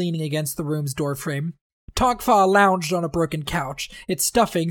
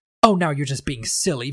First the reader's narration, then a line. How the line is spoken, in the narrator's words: Vivenna said